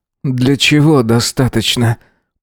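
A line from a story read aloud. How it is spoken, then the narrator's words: Through clenched teeth. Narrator (Russian): процедил сквозь зубы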